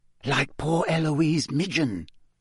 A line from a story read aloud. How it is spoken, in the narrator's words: said Hannah Abbott, a Hufflepuff, in a hushed voice